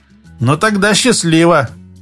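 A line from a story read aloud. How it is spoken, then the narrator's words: Wry snort. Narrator (Russian): хмыкнул Алексей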